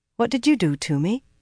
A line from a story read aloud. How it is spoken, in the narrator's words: she demanded, calmly